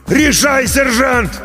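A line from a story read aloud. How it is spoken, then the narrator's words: Shouted right by the ear. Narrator (Russian): Прямо над ухом заорал артиллерист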